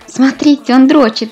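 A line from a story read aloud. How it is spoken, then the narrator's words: Laughing. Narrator (Russian): рассмеялась Лиза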